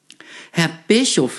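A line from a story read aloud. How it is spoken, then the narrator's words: Stuttering. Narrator (German): sagte sie stotternd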